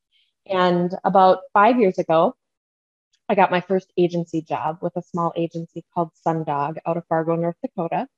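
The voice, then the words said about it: Midwestern Minnesota accent. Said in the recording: “My Midwestern accent comes out when I start talking about Fargo, North Dakota. I'm a tried and true Minnesota girl.”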